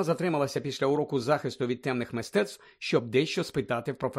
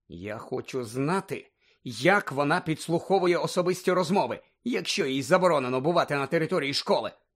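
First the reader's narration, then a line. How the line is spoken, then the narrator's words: Angry. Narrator (Ukrainian): сердито мовила Герміона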